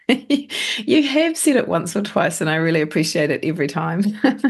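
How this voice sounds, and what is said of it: Hoarse, fading voice. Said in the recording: “I'm losing my voice, so I sound a little different”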